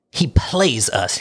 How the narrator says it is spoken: he growled

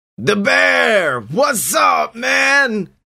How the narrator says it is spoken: various surly figures were all screaming out

